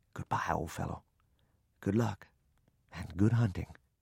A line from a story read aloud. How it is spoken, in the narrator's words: I whispered these words